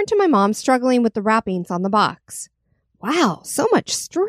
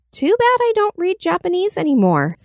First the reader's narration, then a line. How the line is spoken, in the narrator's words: sighed my mom